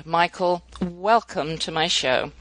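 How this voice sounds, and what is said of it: Speaks with a noticeable foreign accent. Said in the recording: “when you read that in your wonderful accent”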